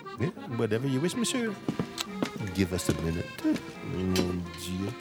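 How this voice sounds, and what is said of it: Fake French accent. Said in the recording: “my French accent? Totally bogus.”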